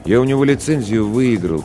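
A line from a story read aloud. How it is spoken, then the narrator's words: Quiet voice. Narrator (Russian): тихо произнес Ларионов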